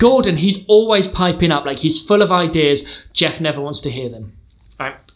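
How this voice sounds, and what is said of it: Usual voice. Nothing is said of it.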